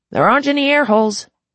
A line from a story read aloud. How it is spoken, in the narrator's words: he shouted, his voice muffled by the glass